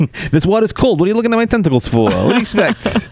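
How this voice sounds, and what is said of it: Bronx cab driver accent. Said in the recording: “I love that we gave the octopus that accent. ... they talk like they're a cab driver in the Bronx.”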